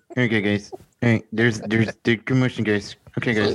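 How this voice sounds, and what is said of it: Strained voice imitating another person. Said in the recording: “Do you not know who did this voice ... It sounds like somebody's holding onto your nads ... sounds just like him”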